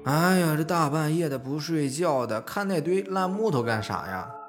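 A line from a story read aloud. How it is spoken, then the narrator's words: Sleepy mumbling. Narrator (Chinese): 宝子嘴里边还嘟囔着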